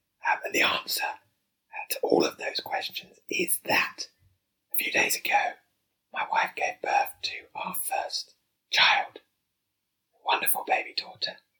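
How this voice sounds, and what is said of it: Whispering. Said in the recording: “why is he whispering?”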